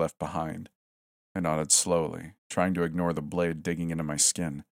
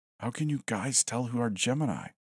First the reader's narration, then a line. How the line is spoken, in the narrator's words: I whispered